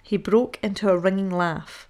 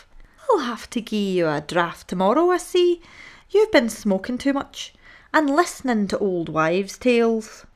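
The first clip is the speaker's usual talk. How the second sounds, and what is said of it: Put-on Irish accent. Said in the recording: “the raw-boned Irish doctor ... in his own unmistakable accent.”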